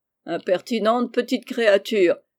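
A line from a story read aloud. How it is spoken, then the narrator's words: Laughing exclamation. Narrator (French): s'écria le docteur en riant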